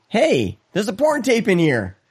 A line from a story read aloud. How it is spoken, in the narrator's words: In unison, we all exclaim